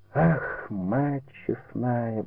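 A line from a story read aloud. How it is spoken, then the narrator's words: Muttering. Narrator (Russian): бормотал Никита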